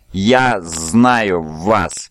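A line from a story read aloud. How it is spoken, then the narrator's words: Strained hiss. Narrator (Russian): прошипел Скарсен, с трудом выговаривая каждое слово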